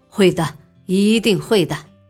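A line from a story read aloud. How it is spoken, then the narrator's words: Knowing laugh, brisk. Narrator (Chinese): 老板会意的笑了，爽快的说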